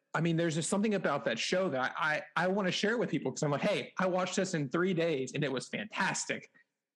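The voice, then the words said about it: Excited, rising higher pitch. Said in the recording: “you can probably tell in my voice that my voice is going higher ... It's just something I get excited about.”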